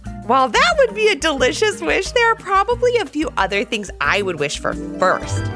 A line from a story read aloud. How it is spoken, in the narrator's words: laughed Ivy